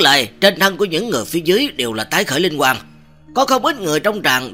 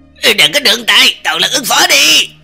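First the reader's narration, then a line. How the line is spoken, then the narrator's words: Sudden roar. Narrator (Vietnamese): Cái tên nam tử đang đứng sóng vai với Nguyệt Trường Ca kia, sắc mặt đã là xanh xám, đột nhiên gầm thét lên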